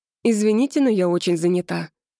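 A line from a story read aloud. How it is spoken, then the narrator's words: Dry curt remark. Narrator (Russian): обронила я сухо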